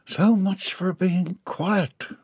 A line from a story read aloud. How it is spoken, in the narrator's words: Orange groaned to himself